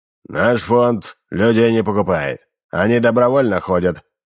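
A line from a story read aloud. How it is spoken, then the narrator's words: Grumbling into beard. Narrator (Russian): проворчал в бороду субтильный Салисов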